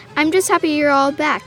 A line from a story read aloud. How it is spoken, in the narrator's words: Kevin said